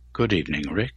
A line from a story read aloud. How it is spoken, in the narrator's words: said quietly